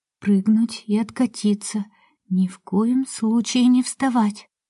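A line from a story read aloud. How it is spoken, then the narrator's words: Whispered. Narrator (Russian): прошептала Сашка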